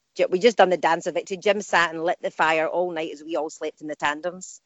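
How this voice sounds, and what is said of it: Strong regional accent. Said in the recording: “my accent was too strong ... your accent is fantastic”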